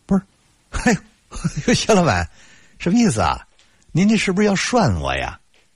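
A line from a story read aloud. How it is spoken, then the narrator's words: Hearty laughter. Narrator (Chinese): 我哈哈大笑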